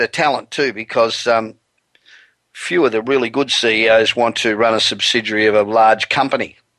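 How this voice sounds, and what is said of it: Australian accent. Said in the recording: “I'm originally Australian. I've been living in Los Angeles for 27 years, but the accent does not ever seem to want to go away ... you certainly don't sound American”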